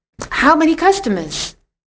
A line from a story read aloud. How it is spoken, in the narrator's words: she asked eagerly